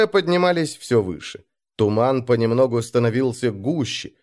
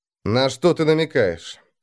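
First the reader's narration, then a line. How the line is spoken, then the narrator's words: Tired question. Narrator (Russian): устало спросил Ярл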